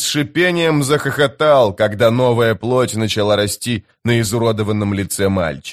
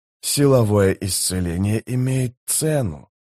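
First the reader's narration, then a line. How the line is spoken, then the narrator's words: Whisper. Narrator (Russian): прошептал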